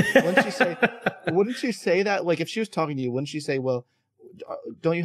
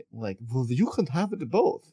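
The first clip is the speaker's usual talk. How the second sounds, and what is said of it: Weak Esther Perel accent impression. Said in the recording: “That's not her accent at all.”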